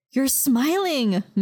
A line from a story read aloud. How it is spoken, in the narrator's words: Maya exclaimed